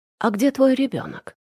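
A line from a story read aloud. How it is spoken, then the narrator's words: Plain. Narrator (Russian): спросила я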